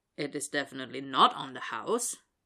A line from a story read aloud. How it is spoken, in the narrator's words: the guy grumbles